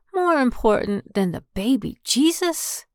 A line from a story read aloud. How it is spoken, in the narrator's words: Helen asked in a shocked voice